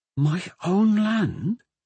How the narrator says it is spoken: Corin said in a whisper

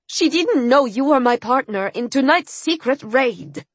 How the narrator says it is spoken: I said in the strongest tone I could muster

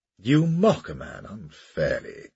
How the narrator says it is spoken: said Kilbert in a wounded tone

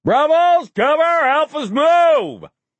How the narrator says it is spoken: Then he shouted

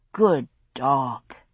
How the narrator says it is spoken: I murmured

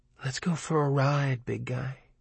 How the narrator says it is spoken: Christine seemed to whisper in the hot summer silence

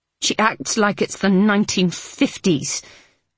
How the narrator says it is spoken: Maud said bitterly

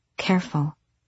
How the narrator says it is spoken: she said too quietly to Aerobin

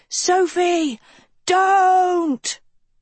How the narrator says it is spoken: She screamed

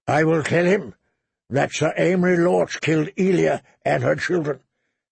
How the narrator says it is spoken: Lord Tywin said calmly

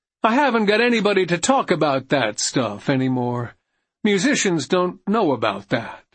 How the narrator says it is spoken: Morrison sadly replied

